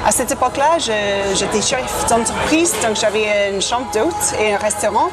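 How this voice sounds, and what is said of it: Slight British accent in French. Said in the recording (French): “ton léger accent. Tu es britannique à la base.”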